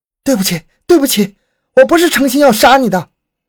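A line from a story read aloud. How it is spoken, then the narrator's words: Guilty loud cry. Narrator (Chinese): 内心有鬼，大声叫道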